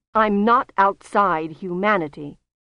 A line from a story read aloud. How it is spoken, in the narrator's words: Susan said sharply